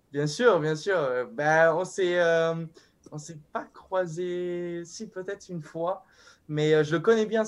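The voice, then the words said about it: Southern French accent like Fabio Quartararo's. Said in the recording (French): “Tu viens de Grasse ... C'est pas loin de Nice. Et je trouve que tu as un accent qui ressemble un petit peu à celui de Fabio Quartararo”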